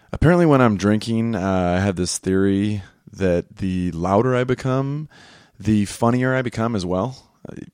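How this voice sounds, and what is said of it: Slightly raspy voice. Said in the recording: “My voice is, I held off a day from recording, you guys. You should have heard me yesterday. It was much worse, but still a little raspy”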